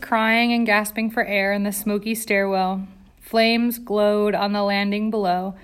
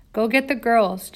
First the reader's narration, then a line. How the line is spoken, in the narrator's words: Jane had said